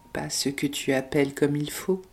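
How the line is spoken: Timid reply. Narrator (French): répondit-elle timidement

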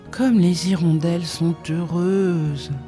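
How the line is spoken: Sighing. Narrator (French): soupirait-il

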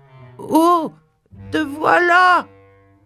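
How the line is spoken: Bear shouting. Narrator (French): cria Winnie l'ourson

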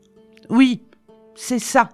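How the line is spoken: Harsh shout. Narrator (French): cria-t-elle durement en retour

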